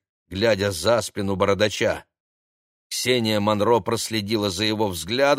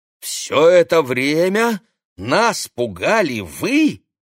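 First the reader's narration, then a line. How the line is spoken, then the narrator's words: Exclaimed. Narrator (Russian): воскликнул Олег Станиславович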